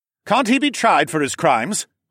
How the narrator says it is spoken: Horace shouted over the chaos

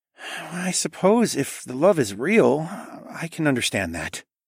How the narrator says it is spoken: Tawa murmured

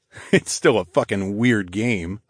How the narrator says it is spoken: I chuckled

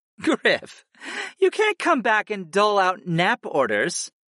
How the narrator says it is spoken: Kristen chuckled

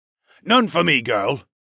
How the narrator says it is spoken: Lerman snapped at the cockatoo woman

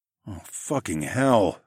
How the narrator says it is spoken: I groaned

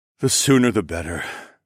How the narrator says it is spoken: he sighed

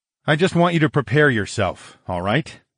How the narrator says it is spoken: grunted

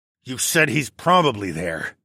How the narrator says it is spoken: I said through gritted teeth

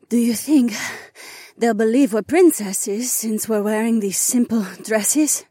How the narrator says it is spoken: Jessamine panted

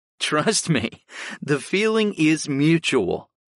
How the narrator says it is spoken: laughed

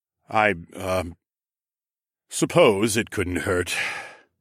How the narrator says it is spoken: Rodion sighed

